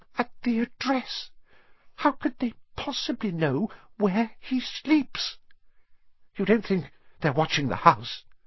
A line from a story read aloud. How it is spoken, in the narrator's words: Aunt Petunia was saying in a quivering voice